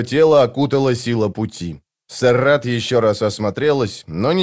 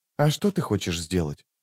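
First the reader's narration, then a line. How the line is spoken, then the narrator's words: Asked quietly. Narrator (Russian): тихо спросила она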